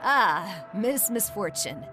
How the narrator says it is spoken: he chuckled

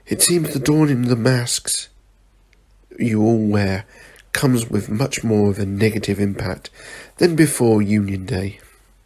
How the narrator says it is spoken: Alfred said sadly

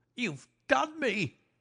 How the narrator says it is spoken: he cried

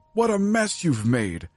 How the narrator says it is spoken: screamed Mrs

